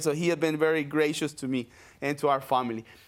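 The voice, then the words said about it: Non-native English accent. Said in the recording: “I know my English is not the best. I have this accent”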